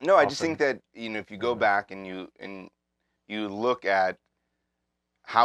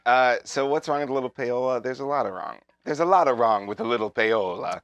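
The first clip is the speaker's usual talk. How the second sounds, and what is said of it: Put-on Italian accent. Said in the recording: “Is this acting? ... I was doing my Italian accent.”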